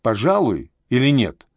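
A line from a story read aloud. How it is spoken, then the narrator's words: Stern question. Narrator (Russian): строго поинтересовался Анатолий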